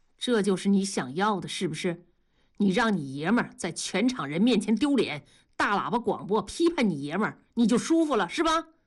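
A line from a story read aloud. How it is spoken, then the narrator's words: Cold bitter tone. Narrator (Chinese): 大庄冷冷地看着老婆说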